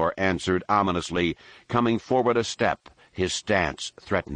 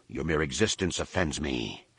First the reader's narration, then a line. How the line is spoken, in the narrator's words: Nome Anor growled